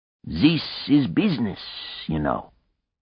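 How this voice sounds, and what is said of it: Parody of a slight foreign accent. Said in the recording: “an unfair parody of Helmut's slight accent”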